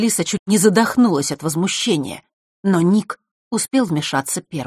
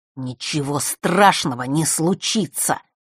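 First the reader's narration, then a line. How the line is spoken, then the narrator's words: Through gritted teeth. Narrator (Russian): процедил он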